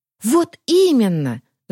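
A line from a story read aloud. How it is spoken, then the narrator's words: Fervent exclamation. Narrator (Russian): с жаром воскликнула Варя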